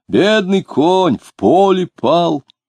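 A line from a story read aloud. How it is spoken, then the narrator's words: Shouting. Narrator (Russian): Марина кричала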